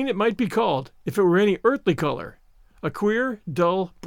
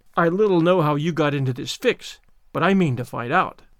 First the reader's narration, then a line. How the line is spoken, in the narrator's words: said Marilla